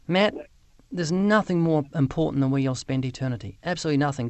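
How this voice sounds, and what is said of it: Speaks with an unusual accent. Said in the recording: “this guy with the strange accent”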